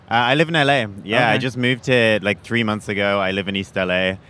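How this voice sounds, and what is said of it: English accent. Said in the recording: “you got an accent ... I'm from England ... your weird voice”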